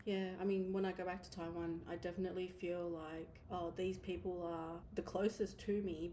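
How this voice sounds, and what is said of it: Australian accent. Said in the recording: “as soon as I open my mouth, I think everyone knows... oh, she's Aussie”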